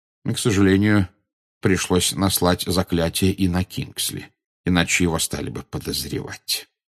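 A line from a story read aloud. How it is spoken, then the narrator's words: Quiet. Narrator (Russian): негромко сказал Дамблдор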